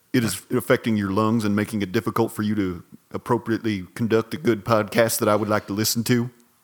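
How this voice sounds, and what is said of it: Imitates a character's voice. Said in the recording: “It's a pretty good impression. ... Very good. ... mullet guy impression”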